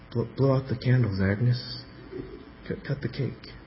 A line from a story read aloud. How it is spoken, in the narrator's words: who wasn't used to seeing a prostitute cry because they were so calloused, gruffly mumbled